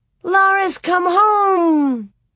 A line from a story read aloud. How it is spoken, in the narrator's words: Grace clapped her hands and shouted